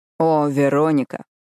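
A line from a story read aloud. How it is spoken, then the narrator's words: Imitated deep bass voice. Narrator (Russian): Подражая голосу Итана, Мэтью заговорил басом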